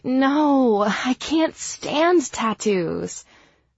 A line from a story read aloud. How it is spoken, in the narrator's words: groan and say